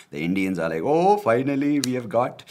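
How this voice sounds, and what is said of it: Put-on Indian accent. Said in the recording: “I don't know why I changed my accent to sound like...”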